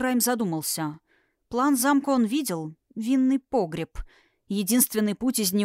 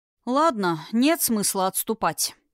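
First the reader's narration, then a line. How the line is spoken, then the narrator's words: Sighing. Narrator (Russian): вздохнул Эрисхайм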